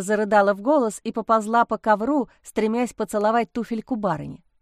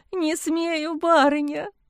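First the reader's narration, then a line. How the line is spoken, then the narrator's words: Sobbing. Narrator (Russian): залилась рыданиями Маша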